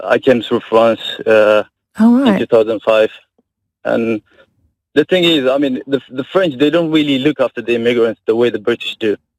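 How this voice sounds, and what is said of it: Very French accent. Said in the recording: “he's got a very French accent as well”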